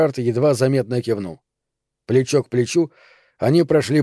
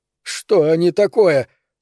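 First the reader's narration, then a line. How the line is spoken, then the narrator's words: Croaking exclamation. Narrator (Russian): воскликнул Эверард, напоминавшим воронье карканье голосом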